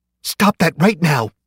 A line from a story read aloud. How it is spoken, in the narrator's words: the woman screamed